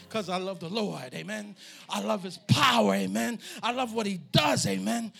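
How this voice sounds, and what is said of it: Screaming and hollering preacher. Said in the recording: “I'm screaming and hollering up here like a fool”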